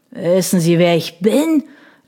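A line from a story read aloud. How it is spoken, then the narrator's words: Slurred speech. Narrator (German): lallte Locktrout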